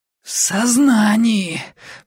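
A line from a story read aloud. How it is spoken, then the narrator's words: Wheezing reply. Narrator (Russian): просипела я в ответ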